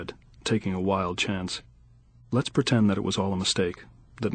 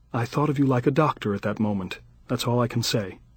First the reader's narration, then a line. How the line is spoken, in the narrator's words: she said stiffly, trying to freeze me out